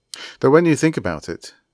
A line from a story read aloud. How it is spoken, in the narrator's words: he added quickly